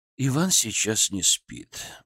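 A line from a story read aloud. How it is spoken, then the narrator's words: Soft. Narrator (Russian): мягко сказал целитель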